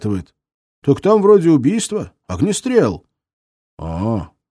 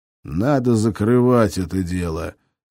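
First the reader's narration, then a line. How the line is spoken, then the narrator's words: Calm, almost serene. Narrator (Russian): сказал ящик как-то даже спокойно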